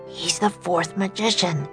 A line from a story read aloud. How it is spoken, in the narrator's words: whispered Jack